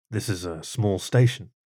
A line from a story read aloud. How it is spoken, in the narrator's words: said quietly